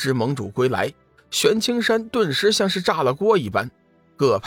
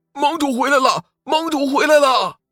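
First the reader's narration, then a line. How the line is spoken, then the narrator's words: Joyful shout. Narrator (Chinese): 玄清门巡山弟子也看到了龙宇和幽梦，开心的大喊道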